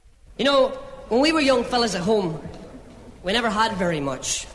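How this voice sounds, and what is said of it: Belfast Northern Irish accent. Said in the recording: “a little problem with this track because of the accents. They're from Belfast, Northern Ireland”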